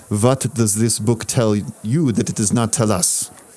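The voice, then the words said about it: Villainous put-on German accent. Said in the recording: “in a villainous German accent”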